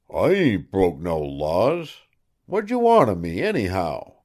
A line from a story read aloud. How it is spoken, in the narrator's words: Awed by this thundered preamble, Ferris made shift to mutter